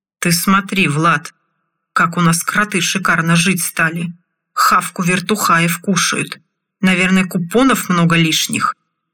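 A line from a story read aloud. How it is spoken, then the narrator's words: Deliberately loud mocking man. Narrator (Russian): Нарочито громко заговорил один из лесорубов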